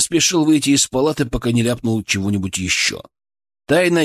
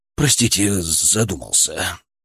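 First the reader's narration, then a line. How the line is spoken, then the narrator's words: Mumbling. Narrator (Russian): пробормотал я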